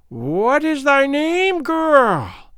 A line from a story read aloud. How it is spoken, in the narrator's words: piped Gagool